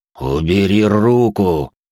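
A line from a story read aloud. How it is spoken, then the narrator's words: Near-growling angry man. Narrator (Russian): едва ли не прорычал остановленный мужик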